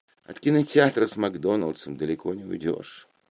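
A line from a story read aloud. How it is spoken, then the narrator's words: Sighing. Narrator (Russian): вздохнула Мара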